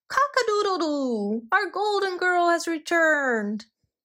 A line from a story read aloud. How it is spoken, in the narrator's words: the rooster flapped its wings with joy and yelled